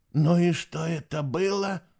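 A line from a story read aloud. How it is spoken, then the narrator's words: Loud horrified whisper. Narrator (Russian): громко прошептал Фишер, как будто оказался в самом невероятном кошмаре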